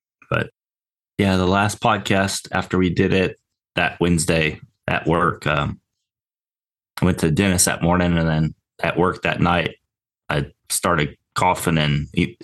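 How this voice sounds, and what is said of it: Raspy voice with a cough. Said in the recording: “Still got a little bit of a cough, raspy voice. You could hear it in the last podcast a little bit.”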